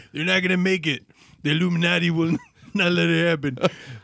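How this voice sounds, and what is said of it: Imitates another person's voice. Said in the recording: “Worst Jesse impression ever.”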